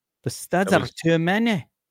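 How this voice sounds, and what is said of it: Put-on Scottish accent. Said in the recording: “It's an Irish accent. ... Scottish? ... It's more Scottish, yeah.”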